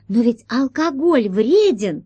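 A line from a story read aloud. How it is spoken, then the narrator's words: Exclaimed. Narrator (Russian): воскликнула Алиса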